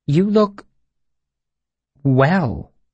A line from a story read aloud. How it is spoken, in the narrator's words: she said hesitantly